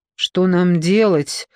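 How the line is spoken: Dejected, sinking voice. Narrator (Russian): упавшим голосом спросила Даниэла

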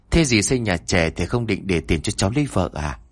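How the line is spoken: Half-joking. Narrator (Vietnamese): Đông nói bằng một giọng nửa đùa nửa thật

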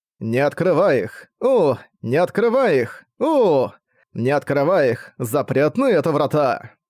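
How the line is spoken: Cheerful choir singing. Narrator (Russian): Весело пел хор под стать задорному аккомпанементу

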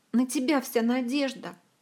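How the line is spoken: Sobbing. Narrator (Russian): всхлипнула Зинь

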